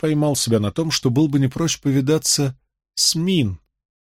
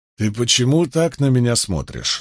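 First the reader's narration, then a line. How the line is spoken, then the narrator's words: Stern question. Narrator (Russian): строго спросил он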